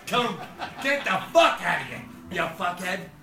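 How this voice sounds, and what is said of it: Angry screaming and yelling. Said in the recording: “he's screaming and yelling”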